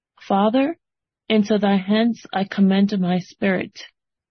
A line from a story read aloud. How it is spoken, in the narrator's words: he cries with a loud voice